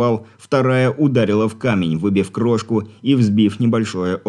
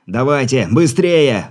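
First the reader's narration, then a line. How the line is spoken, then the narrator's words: Shout. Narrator (Russian): выкрикнул Игорь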